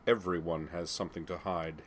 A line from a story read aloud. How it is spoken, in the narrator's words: said coldly